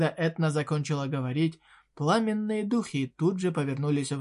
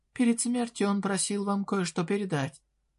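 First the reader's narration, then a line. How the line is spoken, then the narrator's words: Calm, composed. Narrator (Russian): героиня, глядя опасности прямо в лицо, спокойно добавила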